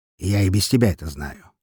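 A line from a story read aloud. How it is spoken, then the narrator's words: Snorting. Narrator (Russian): хмыкнул он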